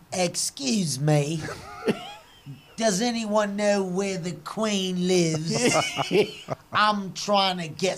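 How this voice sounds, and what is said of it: Put-on British accent. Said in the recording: “Can you do your best British accent for us, please?”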